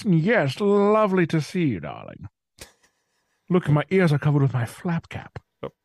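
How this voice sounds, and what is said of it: Put-on posh-sounding unidentified accent. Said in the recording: “I would immediately talk like this ... not sure what accent that was, but I just went with it”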